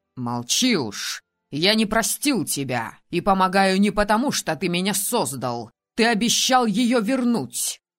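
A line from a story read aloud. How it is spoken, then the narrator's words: Bitter growl. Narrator (Russian): Рыкнул Алисдейр и горько заметил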